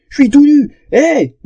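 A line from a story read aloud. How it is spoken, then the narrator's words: Panicked yell. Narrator (French): hurla-t-il les yeux exorbités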